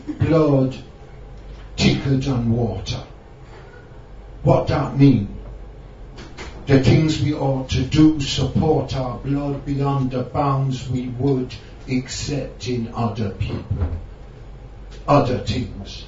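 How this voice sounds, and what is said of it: Rasta accent, reggae-style rant. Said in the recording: “Me do it in a Rasta accent, you know, called Reggae Rant.”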